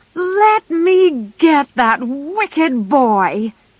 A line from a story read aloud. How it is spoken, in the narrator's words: shouted Joe